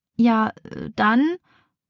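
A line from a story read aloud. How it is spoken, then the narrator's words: Stuttered. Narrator (German): stottert Rebecca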